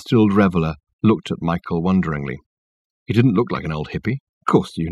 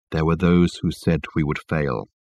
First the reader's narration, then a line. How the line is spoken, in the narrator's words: continued Michael, in his low tone that carried clearly under the boisterous noise that filled the carriage